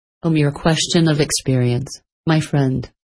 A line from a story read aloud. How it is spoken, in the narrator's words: replied